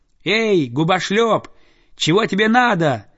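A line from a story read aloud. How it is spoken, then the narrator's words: Defiant child's shout. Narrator (Russian): вызывающе крикнул мальчик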